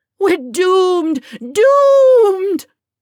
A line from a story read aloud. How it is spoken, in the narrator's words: In a grand display wailed